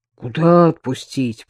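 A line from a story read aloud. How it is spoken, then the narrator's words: Deep bass voice. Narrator (Russian): пробасил Бабкин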